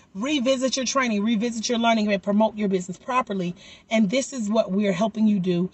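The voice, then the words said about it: Slightly raspy, hoarse voice. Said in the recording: “Y'all can tell I'm getting my voice back. It's still a little raspy ... I'm going to talk even though I'm hoarse.”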